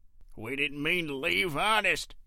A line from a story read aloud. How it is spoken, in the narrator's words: rasped out